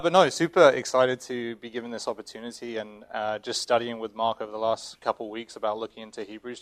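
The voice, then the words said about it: English accent. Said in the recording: “moved from England, if you can tell by my accent”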